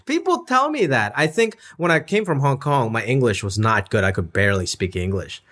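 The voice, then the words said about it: American East Coast accent. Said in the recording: “You have kind of an East Coast vibe and accent.”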